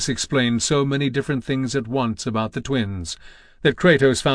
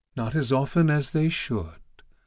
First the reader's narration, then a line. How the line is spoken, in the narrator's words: the goddess of love purred